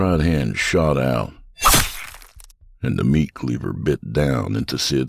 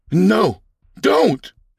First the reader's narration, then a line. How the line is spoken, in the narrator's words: shouted Fred